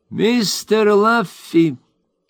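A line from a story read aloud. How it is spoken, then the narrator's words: Very loud, solemn, little man. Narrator (Russian): человечек произнес очень громко и торжественно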